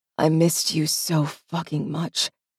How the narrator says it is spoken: murmurs

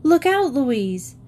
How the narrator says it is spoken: Suddenly, Jean cried out

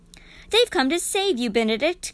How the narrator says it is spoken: cried Mr

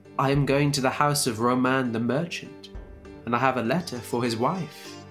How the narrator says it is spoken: he said

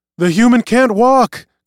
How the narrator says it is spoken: cried Tarek and Reuven

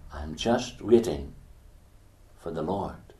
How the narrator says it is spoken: she said again softly

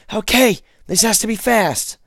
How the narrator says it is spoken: shouted to Kelly

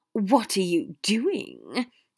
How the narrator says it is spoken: Draco hissed

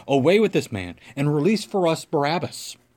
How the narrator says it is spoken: they all cried out together, saying

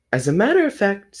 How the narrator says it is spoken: said Rabbit

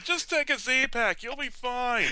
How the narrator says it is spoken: They are one of them shouting

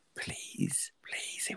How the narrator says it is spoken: he whispered

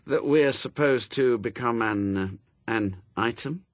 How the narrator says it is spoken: he said slowly

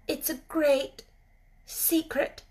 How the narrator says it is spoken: she said slowly

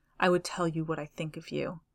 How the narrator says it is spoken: he said very softly

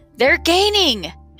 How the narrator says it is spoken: shouted the humbug, wishing he'd never looked back

